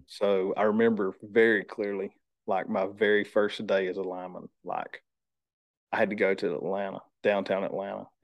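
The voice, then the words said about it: Country accent. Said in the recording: “I'm country. I'm like I said, with the accent”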